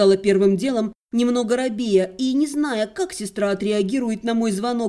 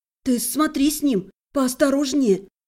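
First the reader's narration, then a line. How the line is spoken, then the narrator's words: Sudden whisper. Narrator (Russian): неожиданно зашептала Кристина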